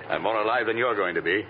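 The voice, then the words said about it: Cockney accent. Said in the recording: “You can drop the accent ... even with that Cockney accent.”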